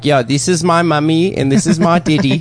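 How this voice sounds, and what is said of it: Imitated South African accent. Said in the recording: “I talked like a fucking South African.”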